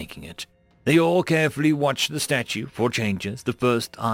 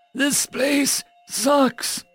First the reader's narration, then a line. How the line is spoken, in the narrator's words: Estelle wheezed